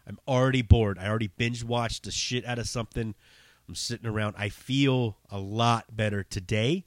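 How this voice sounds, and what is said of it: Slightly hoarse voice. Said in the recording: “I probably sound a little hoarse uh, because I've been coughing like a crazy person.”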